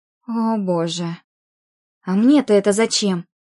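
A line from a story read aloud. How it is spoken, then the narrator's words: Angry exhale. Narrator (Russian): Сердито выдохнула Оля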